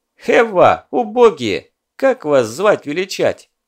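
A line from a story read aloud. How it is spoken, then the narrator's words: Mocking question. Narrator (Russian): насмешливо спросил Задов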